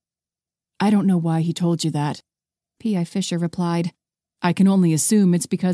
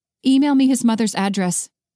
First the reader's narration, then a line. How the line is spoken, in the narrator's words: she replied firmly